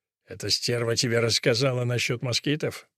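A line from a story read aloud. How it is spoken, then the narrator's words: Mumbled. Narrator (Russian): пробормотал Фуси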